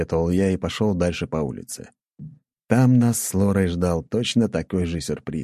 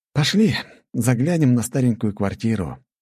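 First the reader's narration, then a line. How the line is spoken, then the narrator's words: Deep breath, then speaking. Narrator (Russian): вздохнув полной грудью, сказал я Лоре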